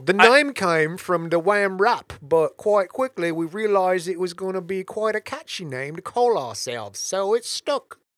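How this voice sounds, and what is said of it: Put-on English accent. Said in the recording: “You have the English accent of Andy Bernard”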